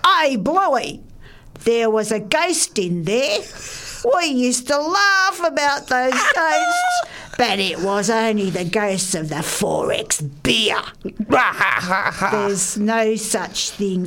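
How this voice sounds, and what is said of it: Well-done put-on accent. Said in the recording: “that was a great accent. You nailed it.”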